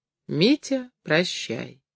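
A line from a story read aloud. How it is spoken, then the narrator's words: Tender old woman. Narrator (Russian): старушка нежно сказала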